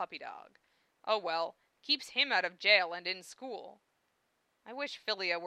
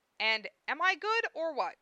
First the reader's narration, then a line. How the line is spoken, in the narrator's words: screaming for Zell